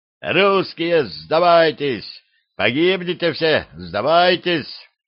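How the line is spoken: Loud warrior shouting. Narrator (Russian): другой лихой воин, громко выкрикивая

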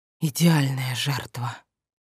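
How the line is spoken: Whispered, young man. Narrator (Russian): прошептал парень

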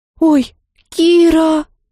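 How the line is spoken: Trembling call. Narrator (Russian): Позвал меня Михалиндар дрожащим голосом

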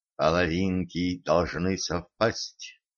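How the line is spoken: Mysterious whisper. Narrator (Russian): Денис таинственно прошептал

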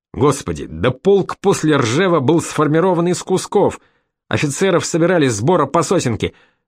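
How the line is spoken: Exasperated exclamation. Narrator (Russian): в сердцах воскликнул Борисов

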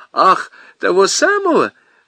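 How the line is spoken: Laughing. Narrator (Russian): засмеялась телефонистка

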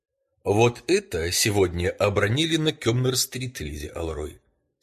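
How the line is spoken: Very calm. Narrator (Russian): сказал я совсем спокойно

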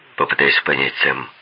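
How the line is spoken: Plain. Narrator (Russian): сказал Ансел

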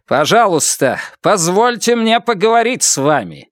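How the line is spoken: Loud. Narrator (Russian): Он громко сказал

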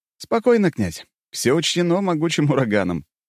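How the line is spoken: Short laugh. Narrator (Russian): я коротко хохотнул

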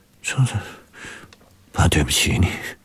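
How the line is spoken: Murmuring. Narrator (Chinese): 方志远喃喃着

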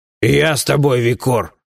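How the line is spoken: Booming drone. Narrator (Russian): прогудел Бабакан

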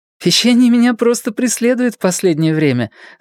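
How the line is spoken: Laughing. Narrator (Russian): засмеялась Настя

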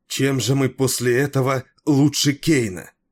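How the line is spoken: Exclaiming. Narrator (Russian): воскликнула

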